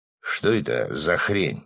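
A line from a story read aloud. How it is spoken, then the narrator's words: Mutter. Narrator (Russian): пробормотал Свят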